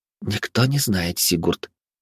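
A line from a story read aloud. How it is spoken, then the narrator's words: Whispered reply, grass blade. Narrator (Russian): прошептала в ответ травинка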